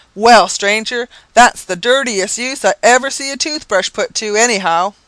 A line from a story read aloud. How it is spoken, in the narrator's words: unable to contain himself, he exclaimed